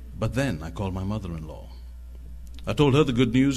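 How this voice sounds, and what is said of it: Speaks with a noticeable accent. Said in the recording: “You speak in a funny accent.”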